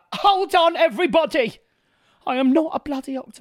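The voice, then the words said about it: Bad imitation of another person's voice. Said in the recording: “That was a really bad impression”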